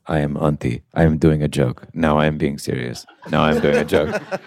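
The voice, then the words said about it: Stoic, flat Finnish-accented impression. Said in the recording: “my impression of him was ... very stoic”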